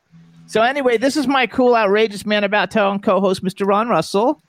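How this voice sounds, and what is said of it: Florida accent. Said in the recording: “has that stupid Florida accent, and he says whore”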